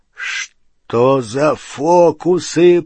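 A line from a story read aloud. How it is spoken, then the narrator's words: Growling. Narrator (Russian): прорычал Хагрид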